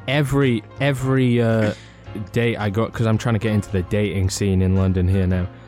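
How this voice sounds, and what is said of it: Subtly Northern and Welsh accent. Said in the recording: “You're both very subtly Northern and subtly Welsh sounding... I'm often accused of sounding American.”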